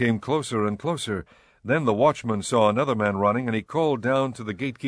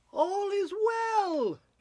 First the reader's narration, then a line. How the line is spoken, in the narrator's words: Ahimaaz called out to the king